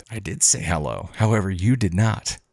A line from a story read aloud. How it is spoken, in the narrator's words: I calmly responded back with